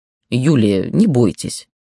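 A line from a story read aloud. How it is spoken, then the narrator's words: Stern older man's voice. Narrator (Russian): суровым голосом Гордона-старшего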